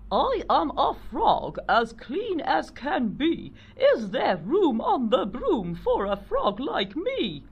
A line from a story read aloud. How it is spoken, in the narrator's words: said with a croak